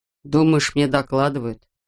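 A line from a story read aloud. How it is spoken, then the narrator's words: Grumbling. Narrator (Russian): проворчал штурман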